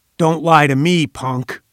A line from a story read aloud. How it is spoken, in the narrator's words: roared